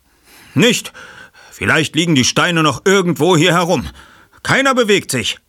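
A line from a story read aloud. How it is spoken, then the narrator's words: Shout. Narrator (German): rief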